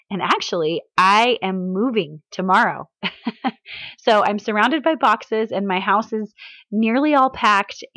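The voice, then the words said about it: Sick, breaking voice. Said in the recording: “my voice sounds funny? To me, it sounds funny ... I'm sick today, so I apologize if my voice breaks ... my voice is out”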